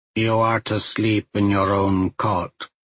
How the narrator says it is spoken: Shona said, her voice flat and emotionless

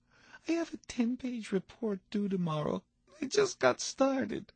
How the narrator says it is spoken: your child tearfully saying

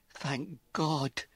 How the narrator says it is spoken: Jen sobbed

